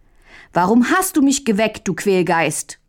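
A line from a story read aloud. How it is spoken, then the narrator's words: Angry shout. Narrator (German): rief Mündlein böse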